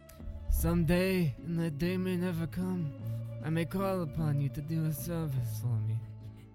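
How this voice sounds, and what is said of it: Marlon Brando Godfather impression. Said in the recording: “Marlon Brando's an INFP... That's how you can do the voice so well.”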